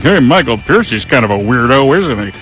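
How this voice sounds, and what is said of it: Imitates another person's voice. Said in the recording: “That's a great Chris impression”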